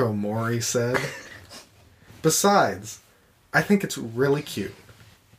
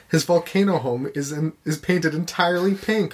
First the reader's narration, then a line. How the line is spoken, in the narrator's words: Mako laughed